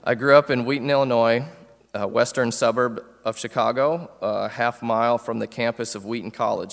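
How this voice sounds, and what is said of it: Northern American accent. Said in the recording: “My accent probably betrays me ... I am a Yankee by birth”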